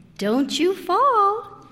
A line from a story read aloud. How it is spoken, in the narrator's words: I warned him sweetly